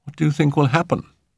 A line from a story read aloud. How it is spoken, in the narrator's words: He asked uneasily